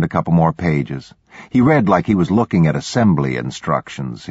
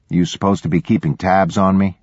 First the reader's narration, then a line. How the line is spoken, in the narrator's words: I asked